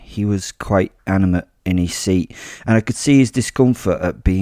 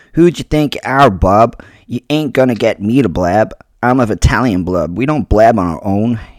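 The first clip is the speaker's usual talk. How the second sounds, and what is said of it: Put-on thick New Jersey accent. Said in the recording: “He was a jerk from New Jersey ... a thick accent was difficult for me to decipher ... Right, I'm going to attempt an accent. Please don't kill me for this.”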